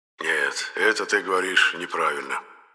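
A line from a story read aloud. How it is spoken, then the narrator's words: Grumbling. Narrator (Russian): ворчал Енох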